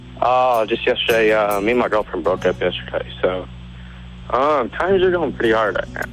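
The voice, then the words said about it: Sad, miserable-sounding voice. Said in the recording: “You sound terrible.”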